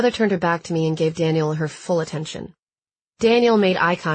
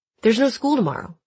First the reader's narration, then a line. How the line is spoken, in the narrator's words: Daniel said